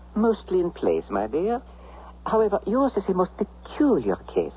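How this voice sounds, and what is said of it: Psychiatrist speaking with an accent. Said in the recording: “Do all psychiatrists speak with an accent?”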